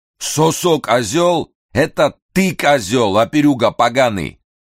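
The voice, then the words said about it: Loud roar with strong Georgian accent. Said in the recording (Russian): “Зычный, уже однажды слышанный Николасом голос с сильным грузинским акцентом проревел”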